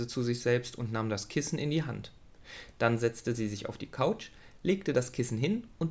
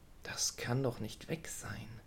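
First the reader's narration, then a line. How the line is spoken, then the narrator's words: Murmured. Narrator (German): murmelte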